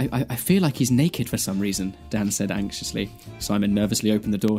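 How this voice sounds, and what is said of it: Usual voice. Nothing is said of it.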